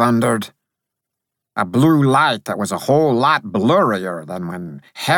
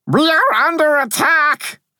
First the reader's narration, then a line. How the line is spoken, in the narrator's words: I cried